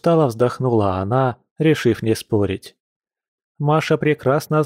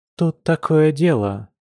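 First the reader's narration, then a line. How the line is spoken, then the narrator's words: Hesitant speech. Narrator (Russian): неуверенно произнесла Маша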